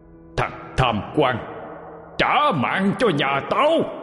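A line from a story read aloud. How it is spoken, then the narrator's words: Furious roaring shout. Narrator (Vietnamese): Người ấy lại gầm lên một tiếng trung chuyển đất trời như con hổ dữ, hét lên mà rằng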